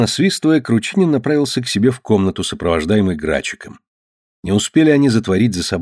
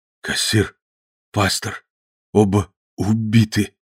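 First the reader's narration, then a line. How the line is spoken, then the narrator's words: Terrified mumbling. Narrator (Russian): бормотал побелевшими от ужаса непослушными губами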